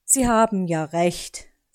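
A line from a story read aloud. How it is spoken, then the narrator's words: Sigh. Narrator (German): seufzte Onkel Uhu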